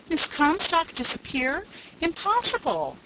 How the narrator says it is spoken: cried Edith Carr

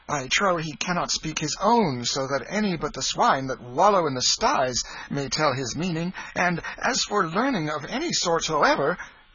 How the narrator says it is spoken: cried Tom, off his guard for the moment

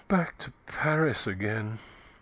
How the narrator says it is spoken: she murmured in a voice that was nearly a sigh

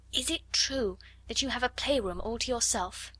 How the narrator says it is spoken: Ermengarde whispered

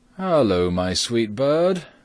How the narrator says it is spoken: said he, laughing merrily

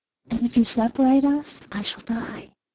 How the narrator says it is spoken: she whispered

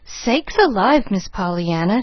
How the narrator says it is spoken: she gasped

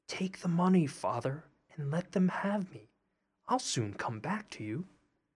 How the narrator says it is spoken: whispered in his ear

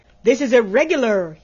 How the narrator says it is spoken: he cried

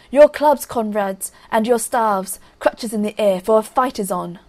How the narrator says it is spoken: Ivan shouted

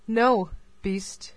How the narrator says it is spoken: she answered in a very firm tone

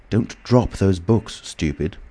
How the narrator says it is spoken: said the voice sharply

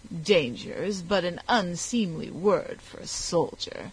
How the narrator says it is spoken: continued the British commander with a sneer

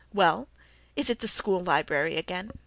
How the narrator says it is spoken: he said with a chuckle

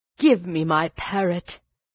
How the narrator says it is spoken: he cried

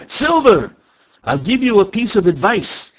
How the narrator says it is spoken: he cried

